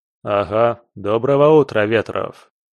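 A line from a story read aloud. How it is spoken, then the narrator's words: Deep bass voice. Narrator (Russian): пробасил Петров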